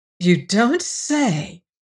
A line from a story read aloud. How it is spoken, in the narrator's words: exclaimed